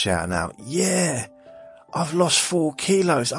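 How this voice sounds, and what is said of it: Usual voice. Nothing is said of it.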